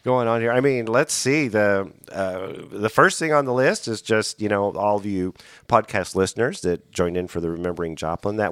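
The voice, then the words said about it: Raspy, hoarse voice. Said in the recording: “if I sound funny, yes, I do, because I've got this cold ... my voice is just getting kind of raspy”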